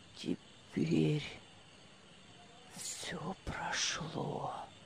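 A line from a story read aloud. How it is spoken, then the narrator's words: Whispered. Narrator (Russian): Прошептал он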